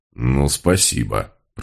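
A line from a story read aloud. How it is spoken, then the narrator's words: Grumbling. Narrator (Russian): проворчал Мегре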